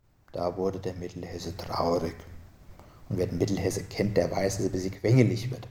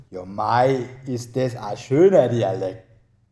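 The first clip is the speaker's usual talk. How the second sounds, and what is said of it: Put-on Bavarian dialect. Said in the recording (German): “Der Bayer sagte”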